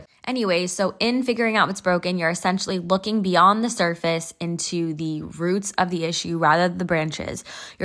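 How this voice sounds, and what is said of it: Nasal, congested voice. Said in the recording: “Sorry if I sound a bit nasally, by the way, I am a little sick”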